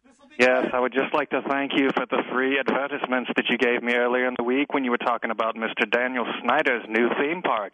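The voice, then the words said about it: Put-on British accent. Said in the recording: “When did you develop a British accent?”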